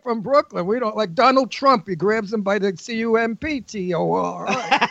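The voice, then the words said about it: Brooklyn accent. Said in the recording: “your Brooklyn accent is interesting”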